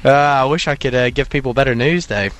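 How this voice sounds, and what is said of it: Distinctive accent. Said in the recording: “I love the way you say thunder with that accent. It's just wonderful. ... What a fantastic accent. I love the way he says the word thunder.”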